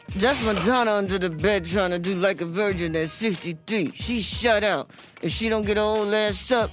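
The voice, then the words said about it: Impression of 50 Cent. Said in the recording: “bravo to you for that 50 impersonation. It was amazing.”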